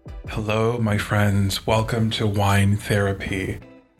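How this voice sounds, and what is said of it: Put-on low bassy sexy voice. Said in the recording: “my terrible attempt at trying to do a, like, low, bassy, sexy voice.”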